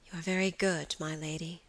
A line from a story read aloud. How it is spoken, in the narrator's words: Phoebe answered with a sigh